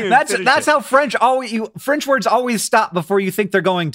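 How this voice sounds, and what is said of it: Usual voice. Nothing is said of it.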